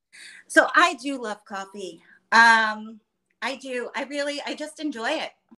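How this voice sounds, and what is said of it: Creaky, slightly unwell voice. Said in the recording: “My voice is a little creaky today. I've been battling something the past few days”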